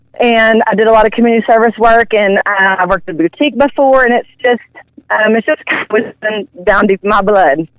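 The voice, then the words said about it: Southern American accent. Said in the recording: “I'm digging your Southern Belle accent ... I'm from the South”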